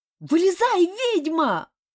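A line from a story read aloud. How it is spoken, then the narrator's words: Very loud yell. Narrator (Russian): Заорал он так, что с соседних деревьев спорхнули несколько ворон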